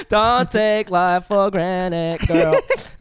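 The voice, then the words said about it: Sung line in put-on Filipino accent. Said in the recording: “was that like in a Filipino accent? ... yeah”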